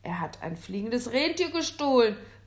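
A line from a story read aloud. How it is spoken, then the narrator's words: Calling out. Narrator (German): rief Villian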